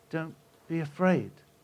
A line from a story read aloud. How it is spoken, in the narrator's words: he said